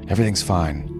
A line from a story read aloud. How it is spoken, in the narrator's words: Jack said